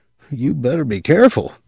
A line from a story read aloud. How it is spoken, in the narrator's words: the youth warned in a troubled voice